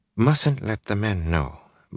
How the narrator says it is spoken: Maren was saying softly, as if repeating a caution voiced before

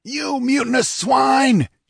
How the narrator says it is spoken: he bellowed

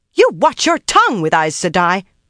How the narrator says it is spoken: barked, scandalized indignation

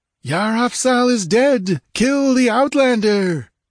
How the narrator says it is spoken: That shout

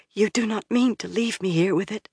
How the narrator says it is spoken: Sita said in a whisper

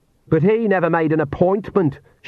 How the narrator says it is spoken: shouted Agnes, even louder

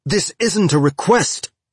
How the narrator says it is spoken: Havelock shouted

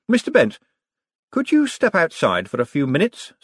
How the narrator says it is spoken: said Moist brightly

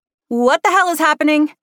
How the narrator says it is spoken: Hannah shouted

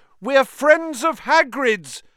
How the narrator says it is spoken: Harry shouted

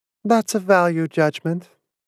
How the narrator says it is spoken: Pris said in a faraway voice

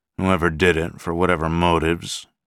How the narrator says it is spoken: his voice was harsh

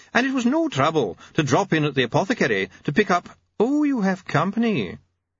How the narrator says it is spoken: he began, smiling brightly

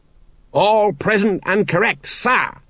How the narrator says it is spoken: he barked

